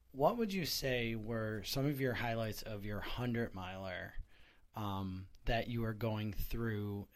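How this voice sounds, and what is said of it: Scratchy, hoarse voice. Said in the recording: “my voice is a little bit different. It's a little scratchy, a little bit of hooting and hollering”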